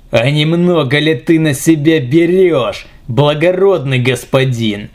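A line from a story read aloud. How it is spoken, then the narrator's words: Angry pirate growl. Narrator (Russian): зло прорычал пират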